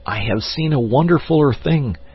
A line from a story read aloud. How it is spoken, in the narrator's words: he cried